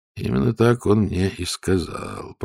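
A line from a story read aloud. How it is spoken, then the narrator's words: Muttered. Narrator (Russian): пробормотал Ваймс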